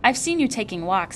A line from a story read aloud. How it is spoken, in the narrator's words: he said